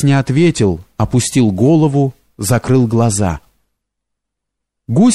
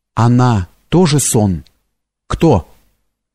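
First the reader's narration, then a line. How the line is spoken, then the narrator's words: Trembling question. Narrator (Russian): спросил дрогнувшим голосом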